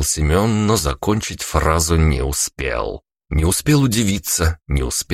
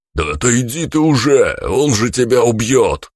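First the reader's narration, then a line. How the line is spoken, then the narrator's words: Hoarse roar. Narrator (Russian): хрипло проревел Глеб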